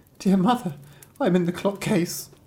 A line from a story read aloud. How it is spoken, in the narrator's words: a soft voice cried